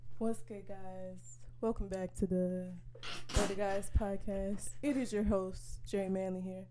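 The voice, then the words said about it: Slow, low-energy impression of another person. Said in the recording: “That sound like that? That's what I sound like. ... When you talk slow. ... you sound like a slug ... You just like super chill.”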